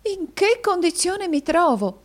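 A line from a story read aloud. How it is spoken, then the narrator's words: Exclaiming. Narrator (Italian): esclamò la signorina Squeers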